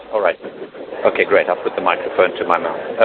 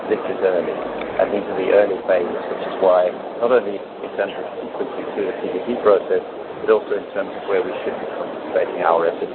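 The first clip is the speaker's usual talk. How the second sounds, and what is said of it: Speaking too quietly. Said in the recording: “can you please raise your voice? Can you please raise your voice a bit?”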